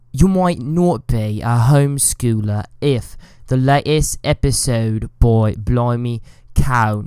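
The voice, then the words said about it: Put-on British accent. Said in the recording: “do the whole segment in a British accent”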